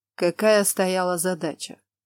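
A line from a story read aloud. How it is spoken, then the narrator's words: Dry question, military man. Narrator (Russian): сухо спросил генерал королевской армии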